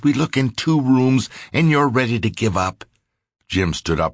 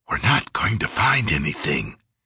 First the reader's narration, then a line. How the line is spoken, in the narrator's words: He whispered